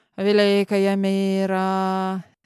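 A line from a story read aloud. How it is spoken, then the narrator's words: Grumbling. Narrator (Russian): ворчал Герман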